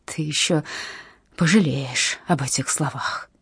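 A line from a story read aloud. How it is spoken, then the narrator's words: Hissing. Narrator (Russian): прошипела Зельда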